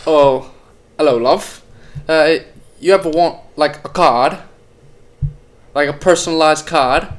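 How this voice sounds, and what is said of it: Attempted put-on British accent. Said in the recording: “let me hear your best English accent ... British accent? ... I was trying to, but it's way too hard.”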